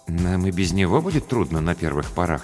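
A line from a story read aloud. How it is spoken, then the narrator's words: Uncertain. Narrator (Russian): неуверенно сказал Рубен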